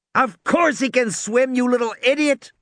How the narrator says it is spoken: Tim shouted at her

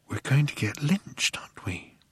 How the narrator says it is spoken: he whispered

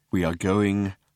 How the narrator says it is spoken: said Slarty Bartfast in a slow, measured voice

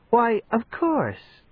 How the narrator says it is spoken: he said soothingly, smiling

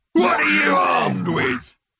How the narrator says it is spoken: roared the tank in disbelief

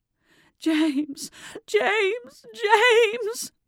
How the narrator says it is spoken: was sobbing

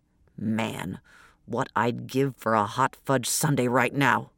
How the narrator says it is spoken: He muttered

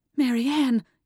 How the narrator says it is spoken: Catherine gasped

